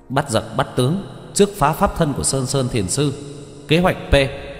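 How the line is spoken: Shouting. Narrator (Vietnamese): Lâm Tâm Sinh la lên

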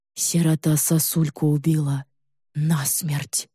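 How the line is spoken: Slow dazed mumble. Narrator (Russian): Медленно протягивая слова, словно повредившись рассудком, мямлит Игорек

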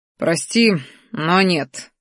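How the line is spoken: Smirking, dragon. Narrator (Russian): хмыкнул черный дракон

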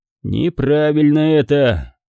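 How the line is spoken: Grumbling. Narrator (Russian): буркнул Гидеон

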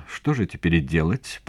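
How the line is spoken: Mutter. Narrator (Russian): пробормотала она

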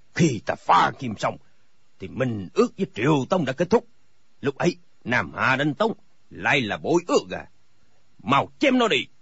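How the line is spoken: Furious shout. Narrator (Vietnamese): Thành các tư hãn cả giận quát

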